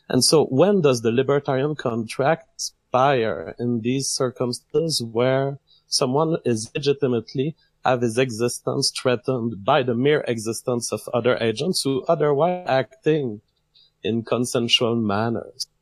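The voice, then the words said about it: Quebec French-Canadian accent. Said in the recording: “love me a Quebec accent”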